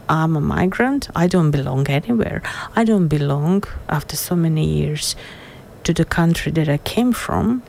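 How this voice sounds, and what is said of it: Non-native foreign accent. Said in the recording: “my accent makes me different from others. So I'm not Australian born”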